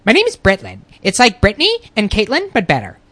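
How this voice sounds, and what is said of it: Man doing convincing girl voice. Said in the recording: “does a good girl voice. Like, it's flawless. ... he can change the pitch of his voice, so it just sounds... It doesn't sound like a guy doing a girl voice.”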